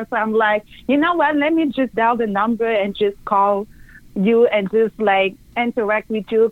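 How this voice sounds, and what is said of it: French accent. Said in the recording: “I love your accent. ... is that like a French accent? ... Yes, it is a French accent.”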